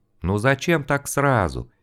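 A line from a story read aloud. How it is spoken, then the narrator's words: Soft, smiling. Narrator (Russian): мягко улыбнулся Искулову его собеседник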